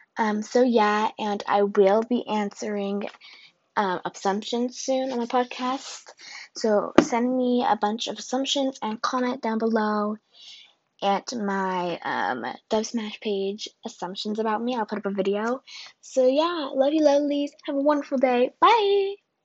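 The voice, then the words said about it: Cracky, strained voice. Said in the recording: “my voice sounds cracky... my voice is getting cracky”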